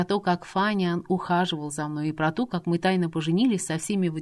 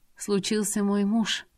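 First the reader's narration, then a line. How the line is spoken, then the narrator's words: Sorrowful sigh. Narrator (Russian): горестно вздохнула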